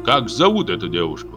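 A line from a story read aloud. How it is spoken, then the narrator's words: Loud question. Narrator (Russian): громко спросил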